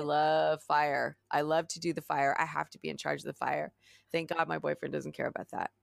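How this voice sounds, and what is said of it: Slightly raspy voice. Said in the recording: “I'm a little bit raspy because I, I must have inhaled way too much smoke”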